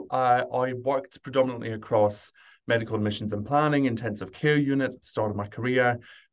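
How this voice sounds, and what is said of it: Scottish British accent. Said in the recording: “you might sense from my accent that I'm from the UK. I grew up in Scotland”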